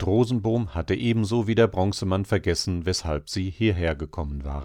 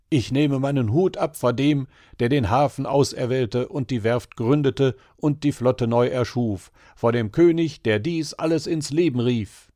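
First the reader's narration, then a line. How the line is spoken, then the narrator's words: Calling out. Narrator (German): rief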